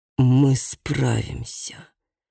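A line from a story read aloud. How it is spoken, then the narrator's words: Hiss. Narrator (Russian): прошипел граф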